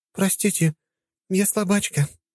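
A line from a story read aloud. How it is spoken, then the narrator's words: Sad sigh. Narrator (Russian): грустно вздохнула она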